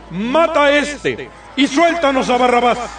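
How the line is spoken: Crowd shouting in unison. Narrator (Spanish): empezaron a gritar todos a una

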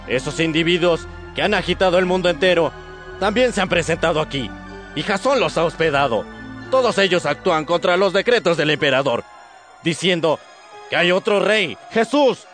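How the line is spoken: Shouting. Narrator (Spanish): gritando

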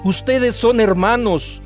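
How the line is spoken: Plain. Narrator (Spanish): les dijo

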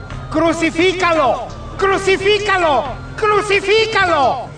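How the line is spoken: Shouted. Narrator (Spanish): Ellos gritaron

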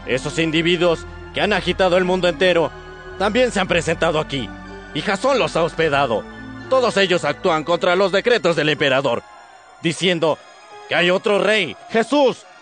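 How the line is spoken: Shouting. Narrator (Spanish): gritando

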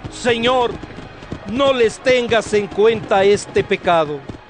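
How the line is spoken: Loud shout. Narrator (Spanish): gritó con voz fuerte

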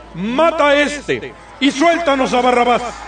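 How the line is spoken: Crowd shouting in unison. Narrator (Spanish): empezaron a gritar todos a una

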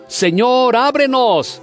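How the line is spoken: Shouting. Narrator (Spanish): gritando

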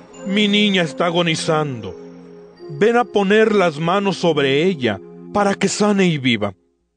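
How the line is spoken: Insistent pleading. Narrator (Spanish): le suplicaba con insistencia, diciendo

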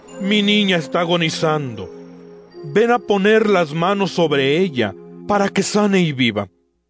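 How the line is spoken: Insistent pleading. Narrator (Spanish): le suplicaba con insistencia, diciendo

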